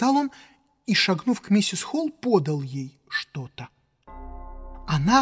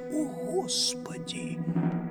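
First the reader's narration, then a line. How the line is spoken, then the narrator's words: Breathed out. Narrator (Russian): выдохнул кто-то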